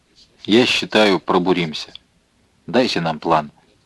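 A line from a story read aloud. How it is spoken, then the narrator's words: Quiet and slow. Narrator (Russian): сказал он негромко, медленно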